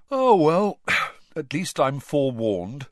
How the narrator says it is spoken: Ron yawned

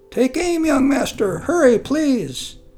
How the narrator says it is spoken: Sundal, Sudok's old servant, called out

